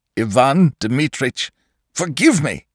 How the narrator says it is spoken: he cried

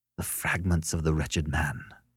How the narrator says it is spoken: whispered Beverly

